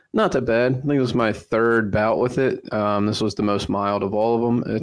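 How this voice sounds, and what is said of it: Slightly raspy voice. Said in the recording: “recovering from COVID here, so my voice might be a little raspy”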